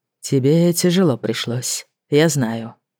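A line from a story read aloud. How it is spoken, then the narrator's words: Muffled, remorseful voice. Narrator (Russian): голос его прозвучал глухо, с ноткой раскаяния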